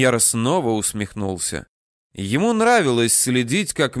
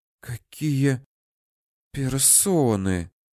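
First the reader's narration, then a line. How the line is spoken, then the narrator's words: Marked woman's whisper. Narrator (Russian): прошептала меченая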